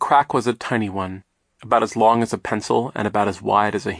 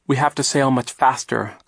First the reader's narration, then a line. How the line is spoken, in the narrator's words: Klaus said